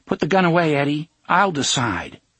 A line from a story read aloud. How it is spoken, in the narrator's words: Jake raised his voice and said